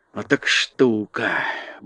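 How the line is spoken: Muttering. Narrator (Russian): бормотал Урфин Джюс

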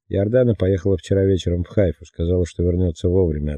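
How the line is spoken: Plain. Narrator (Russian): ответила Сара

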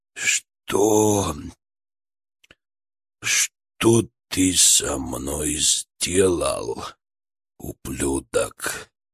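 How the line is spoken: Hoarse, weak, broken voice. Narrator (Russian): Голос был чужим, хриплым, слабым, надломленным

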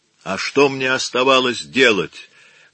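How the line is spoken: Loud. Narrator (Russian): громко говорил он

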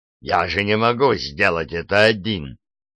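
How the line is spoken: Irritated. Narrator (Russian): продолжал Фресби, раздраженно кривясь

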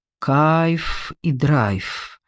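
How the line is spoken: Slow. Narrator (Russian): медленно произнес

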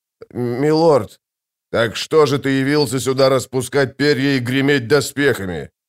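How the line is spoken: Growled. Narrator (Russian): прорычал барон

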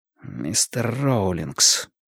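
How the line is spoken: Strained, choked voice. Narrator (Russian): сказал Мэтью сдавленным голосом

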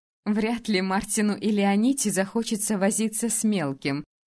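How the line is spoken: Laughing. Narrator (Russian): рассмеялась Сай

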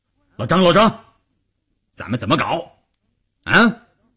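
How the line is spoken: Loud, bursting in. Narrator (Chinese): 关山林撞进去就大声地说

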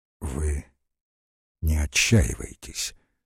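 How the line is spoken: Quiet. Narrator (Russian): сказал ей тихо Подозеров

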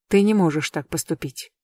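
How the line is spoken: Quiet. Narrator (Russian): тихо говорит он

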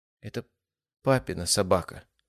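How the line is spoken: Quiet dejected boy mumbling. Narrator (Russian): тихо пробормотал мальчик, повесив нос

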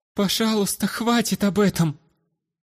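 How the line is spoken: Near pleading. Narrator (Russian): Едва не взмолилась аристократка

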